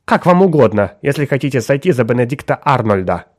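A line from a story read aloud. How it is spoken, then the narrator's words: Sharp reply. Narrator (Russian): резко ответила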